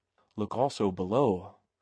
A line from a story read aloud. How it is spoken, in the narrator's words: whispered Sir Thomas